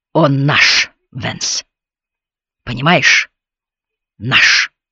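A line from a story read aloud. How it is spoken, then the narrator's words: Strained mumble. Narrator (Russian): Хойт, собравшись силами, сумел только пробормотать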